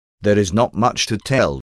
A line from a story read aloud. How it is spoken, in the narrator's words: he responded stiffly and almost mechanically